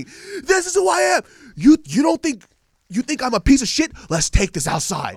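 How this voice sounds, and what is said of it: Screaming angrily. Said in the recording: “what he's screaming.”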